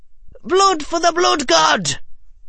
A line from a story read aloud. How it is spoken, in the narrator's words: shrieked Neville of Chaos, though, since he was underwater, it came out more like